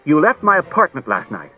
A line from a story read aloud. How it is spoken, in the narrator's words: Daniil sharply and said